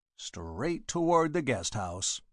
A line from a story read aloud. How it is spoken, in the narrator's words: muttered Inspector Aylesbury